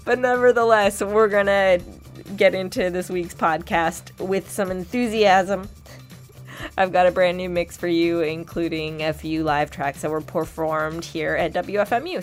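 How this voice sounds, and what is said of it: Sick, under-the-weather voice. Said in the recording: “I don't know if you can tell from my voice, but I caught something ... I'm a little bit under the weather”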